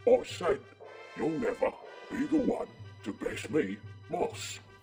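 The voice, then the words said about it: Thick, hard-to-understand British accent. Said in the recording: “Is my accent too thick for you? ... It's that accent. It's so hard to decipher. ... benign British blither-blather”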